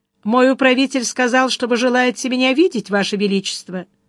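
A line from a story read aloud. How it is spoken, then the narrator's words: Indifferent polite tone. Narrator (Russian): сказал безразличным светским тоном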